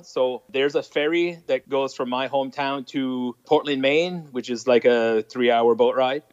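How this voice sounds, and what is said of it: Thick French accent. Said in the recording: “I have a fairly thick French accent. I'm trying my best to hold that down a little bit because it can get worse. Usually a couple drinks, the French accent gets thicker.”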